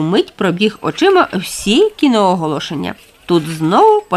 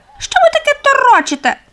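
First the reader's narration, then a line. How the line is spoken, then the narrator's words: Thin squeak. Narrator (Ukrainian): Тоненько пропищала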